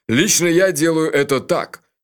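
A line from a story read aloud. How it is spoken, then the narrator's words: Short angry laugh. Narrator (Russian): Джуфин снова рассмеялся, коротко и зло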